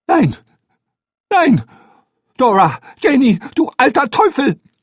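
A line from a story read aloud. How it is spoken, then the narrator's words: Loud shriek. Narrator (German): laut zu kreischen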